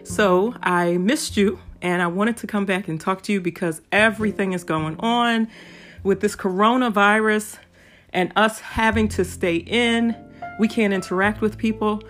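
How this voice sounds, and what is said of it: Strained voice, difficulty talking. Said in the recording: “hear in my voice, but it is a little difficult for me to talk”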